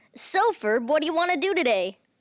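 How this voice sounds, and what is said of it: Imitates a cartoon character's voice. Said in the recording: “your best Phineas impression ... That's pretty close ... He was really close”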